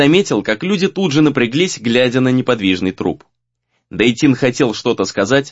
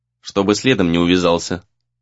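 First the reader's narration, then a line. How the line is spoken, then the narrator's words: Gloomy. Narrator (Russian): мрачно ответил тот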